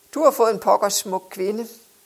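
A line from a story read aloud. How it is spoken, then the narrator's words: Ironic voice. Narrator (Danish): sagde med sin ironiske stemme til Johan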